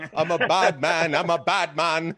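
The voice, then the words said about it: Russian accent imitating Jamaican. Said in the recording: “You should have heard him say it with his Russian accent. ... It was like a Russian impersonating a Jamaican. It sounded so bad.”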